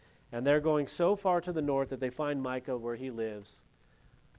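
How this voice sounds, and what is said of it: Usual voice. Nothing is said of it.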